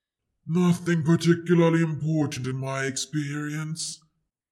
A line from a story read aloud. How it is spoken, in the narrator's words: sighed